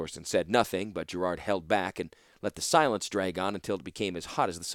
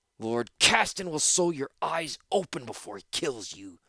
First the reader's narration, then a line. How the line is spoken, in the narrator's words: Torsten snapped at him